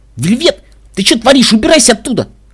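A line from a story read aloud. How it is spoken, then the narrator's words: Shout. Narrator (Russian): крикнул Каламити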